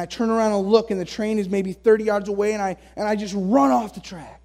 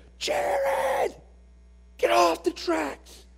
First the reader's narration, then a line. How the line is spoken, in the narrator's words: the shrill scream of my sister